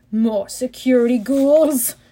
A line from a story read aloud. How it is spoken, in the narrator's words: he moaned